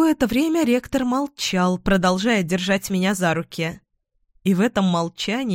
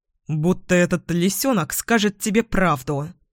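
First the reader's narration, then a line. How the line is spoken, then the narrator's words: Angry retort. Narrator (Russian): сердито возразил Эдвин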